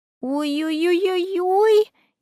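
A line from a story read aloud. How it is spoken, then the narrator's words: Frightened squealing. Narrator (Russian): испуганно запищала Аля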